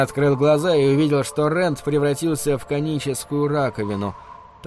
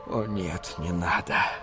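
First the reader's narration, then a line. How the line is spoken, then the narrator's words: Inward groan. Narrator (Russian): простонал про себя Шапира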